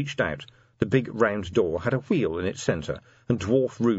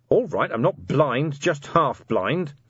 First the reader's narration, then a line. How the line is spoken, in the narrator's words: Vimes snapped